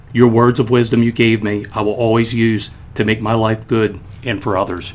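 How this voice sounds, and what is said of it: Choked up, emotional voice. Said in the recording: “I get choked up even like reading that.”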